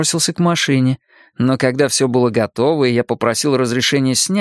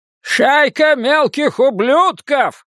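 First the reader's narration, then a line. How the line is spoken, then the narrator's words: Old man yelling. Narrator (Russian): заорал дедушка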